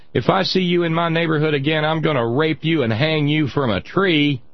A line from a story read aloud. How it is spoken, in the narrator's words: hollers her, and he comes off his porch and continues to follow her and hollers